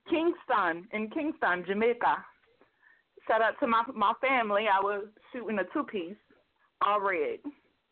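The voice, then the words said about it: Jamaican accent. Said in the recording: “I just wanted to hear the accent. Like, I go crazy.”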